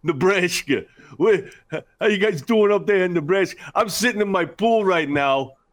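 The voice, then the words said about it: Strong New York accent. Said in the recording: “just straight New York, like hardcore accent”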